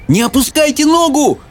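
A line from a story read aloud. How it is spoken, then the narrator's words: Screaming. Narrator (Russian): завопил Майкл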